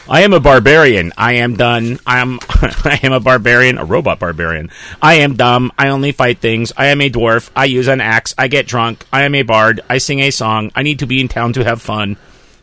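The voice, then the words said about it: Robot voice. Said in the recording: “robot voice”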